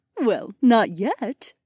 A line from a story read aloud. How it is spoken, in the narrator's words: Aliona giggled